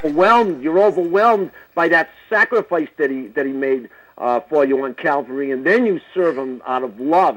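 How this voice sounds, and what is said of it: Boston accent. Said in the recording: “I love your accent. I mean, it sounds like I got a daughter in New York... I'm from Boston.”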